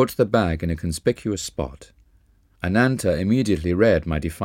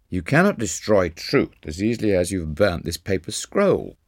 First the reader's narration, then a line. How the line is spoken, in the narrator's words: my brother laughed scornfully